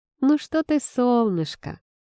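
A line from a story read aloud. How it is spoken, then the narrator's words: Teasing. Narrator (Russian): подразнила я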